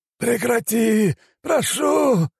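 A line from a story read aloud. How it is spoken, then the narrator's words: Howl. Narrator (Russian): взвыл он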